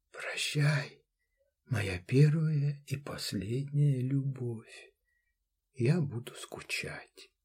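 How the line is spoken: Barely audible whisper. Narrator (Russian): Девушка прошептала еле слышно

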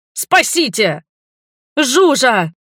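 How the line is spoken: Yelling. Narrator (Russian): заорала я

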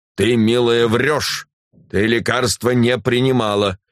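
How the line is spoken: Stern. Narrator (Russian): Демьян Лукич строго молвил

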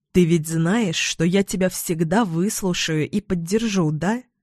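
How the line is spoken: Gentle, apprehensive. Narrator (Russian): Мягко говорю ей, чувствуя, что разговор предстоит непростой

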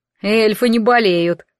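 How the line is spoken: Snorted. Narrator (Russian): фыркнул Вервольф

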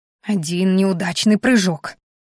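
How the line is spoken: Grumbling. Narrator (Russian): ворчала я

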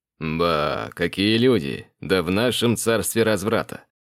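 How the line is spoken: Sly, mocking drawl. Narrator (Russian): ехидно протянул Тарин

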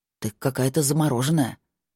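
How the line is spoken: Muttering. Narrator (Russian): пробормотал Кай

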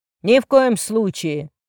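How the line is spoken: Barked through speaker. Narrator (Russian): рявкнул из динамика в голос Жукова

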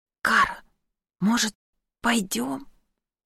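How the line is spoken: Barely audible whisper. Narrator (Russian): Еле слышно прошептал Киллиан

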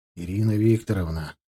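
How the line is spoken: Weary. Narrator (Russian): устало проговорил я

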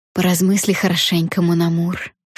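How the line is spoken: Whisper. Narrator (Russian): шепнула Бабетта

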